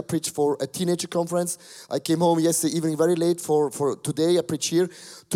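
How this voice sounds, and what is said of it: Low, sick-sounding voice. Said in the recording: “my voice is a little bit different. It's very uh, low, my voice, because uh, uh, I'm sick ... my voice is attacked”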